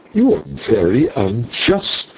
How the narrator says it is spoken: broke in angrily

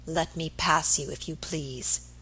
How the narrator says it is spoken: he said in an icy voice

